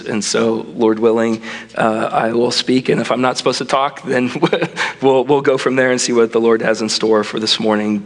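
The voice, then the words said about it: Weird-sounding voice, affected by illness. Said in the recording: “my voice sounds weird ... had a cold for a couple weeks now, and it's just starting to affect my voice”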